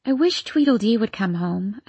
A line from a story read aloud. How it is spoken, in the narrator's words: I said wistfully